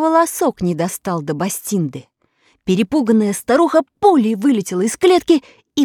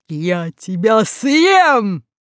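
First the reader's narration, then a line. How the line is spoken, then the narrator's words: Lion's roar. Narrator (Russian): лев проревел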